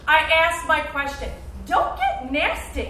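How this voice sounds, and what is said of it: Yelling, raised angry voice. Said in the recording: “you're yelling”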